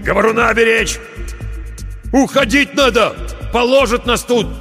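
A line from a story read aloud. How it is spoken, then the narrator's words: Shouted. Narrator (Russian): крикнул он проводнику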